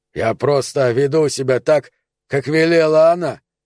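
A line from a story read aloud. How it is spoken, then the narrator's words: Shouted. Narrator (Russian): крикнул он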